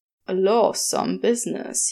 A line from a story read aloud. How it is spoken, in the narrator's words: he says, his voice low and soft